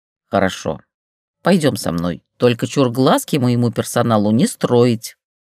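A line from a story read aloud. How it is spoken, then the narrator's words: Grumbling. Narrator (Russian): проворчала Штукина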